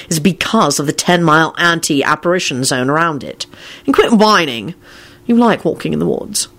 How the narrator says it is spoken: he said irritably

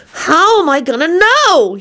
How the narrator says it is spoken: He wailed

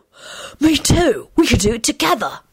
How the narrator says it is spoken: Alex hissed conspiratorially

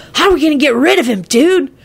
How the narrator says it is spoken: Kenny blurted out rudely

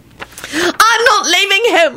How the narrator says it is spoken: Elizabeth shrieked defiantly

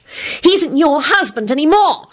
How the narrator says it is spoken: Solange shrieked, her fist clenched into balls of rage

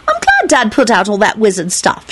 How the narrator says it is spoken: she said brightly

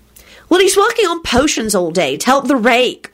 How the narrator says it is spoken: Rosie said indignantly

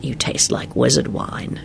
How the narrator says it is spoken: he murmured

